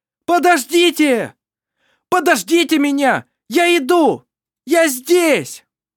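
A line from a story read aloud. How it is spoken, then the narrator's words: Very loud shouting. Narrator (Russian): Кричал он так, что его слышала вся деревня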